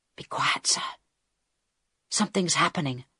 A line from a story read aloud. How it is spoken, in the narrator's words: Harold whispered back